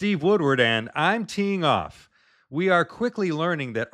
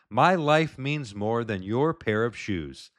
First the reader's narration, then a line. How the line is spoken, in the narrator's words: Charlie sighs and says